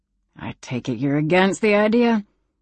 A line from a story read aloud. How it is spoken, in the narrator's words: Miss Bessie observed dryly